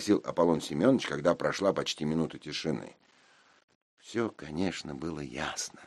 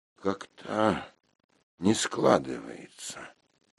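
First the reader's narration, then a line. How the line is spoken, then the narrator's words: Drawling. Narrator (Russian): протянул я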